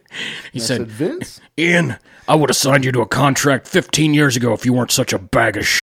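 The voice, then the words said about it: Imitates another person's voice. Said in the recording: “a Vince McMahon impression”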